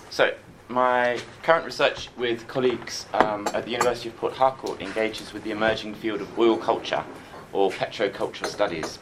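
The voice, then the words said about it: Congested voice from a cold. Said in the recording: “I've got a cold, and so I'm just going to snivel through this”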